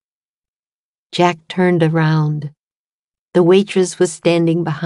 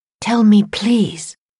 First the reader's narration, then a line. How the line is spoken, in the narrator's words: she whispered